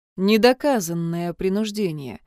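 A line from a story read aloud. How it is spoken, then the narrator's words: Grim self-reminder. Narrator (Russian): мрачно напомнил себе Джун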